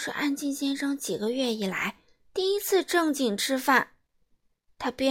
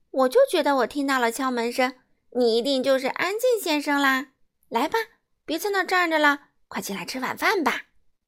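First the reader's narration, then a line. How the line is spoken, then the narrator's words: Smiling. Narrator (Chinese): 快乐先生笑着说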